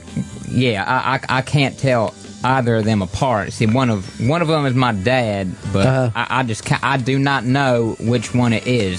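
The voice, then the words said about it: Southern American accent. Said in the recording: “by your southern accent”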